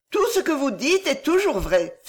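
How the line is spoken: Exclaiming. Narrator (French): s'écria Henriette

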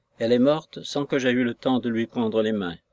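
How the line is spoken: Pained stammer. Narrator (French): balbutia-t-il d'un ton douloureux

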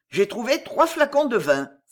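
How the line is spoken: Triumphant exclamation. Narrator (French): s'écria triomphalement Carcagne

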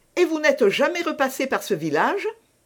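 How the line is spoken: Quick, eager question. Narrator (French): demanda vivement Madame de Chevreuse

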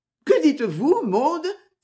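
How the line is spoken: Terrified exclamation. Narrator (French): s'écria Christabel épouvantée

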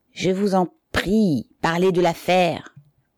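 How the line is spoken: Clear strong voice. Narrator (French): dit le président d'une voix nette et forte

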